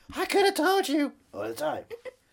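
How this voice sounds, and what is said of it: Imitates another person's voice. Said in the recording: “my Casey Affleck impression”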